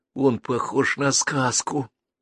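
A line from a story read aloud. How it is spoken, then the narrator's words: Whisper. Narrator (Russian): прошептал Геннадий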